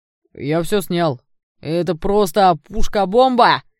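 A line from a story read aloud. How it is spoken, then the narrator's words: Excited shout, young man. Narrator (Russian): выкрикнул кудрявый парень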